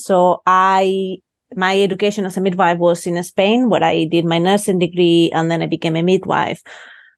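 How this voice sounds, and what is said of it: Non-Scottish foreign accent. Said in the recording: “I'm not originally from Aberdeen, as everyone can guess from my accent.”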